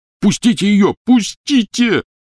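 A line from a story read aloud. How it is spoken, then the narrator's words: Yelling. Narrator (Russian): орал Рон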